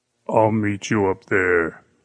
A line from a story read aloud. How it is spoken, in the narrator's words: the giant said, his voice thick with menace